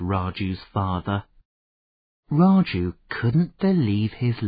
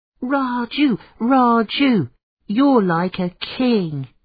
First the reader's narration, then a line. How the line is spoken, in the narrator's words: cried the children